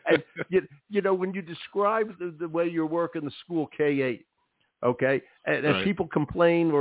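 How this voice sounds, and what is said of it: Usual voice. Nothing is said of it.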